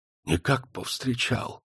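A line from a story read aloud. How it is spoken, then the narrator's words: Whisper. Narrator (Russian): прошептал Семен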